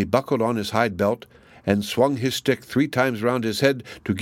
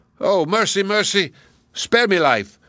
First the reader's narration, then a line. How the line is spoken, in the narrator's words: cried the giant